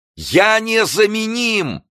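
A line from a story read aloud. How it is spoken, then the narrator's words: Shout into the dark. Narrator (Russian): кричал директор в темный сад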